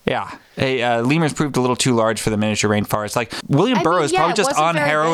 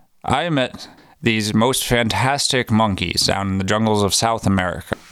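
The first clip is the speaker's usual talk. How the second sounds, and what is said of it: Bad old-man impression with long pauses. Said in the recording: “bad Hunter Thompson impression ... an old man that leaves nice long pauses in between”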